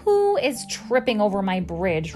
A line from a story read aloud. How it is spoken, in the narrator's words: roared a voice that made the bridge tremble